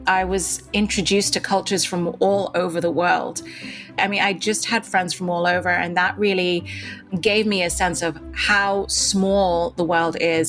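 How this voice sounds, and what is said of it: Slight British-influenced accent. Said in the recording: “I attended a British-run school, which is why I still have a bit of an accent. It used to be even stronger”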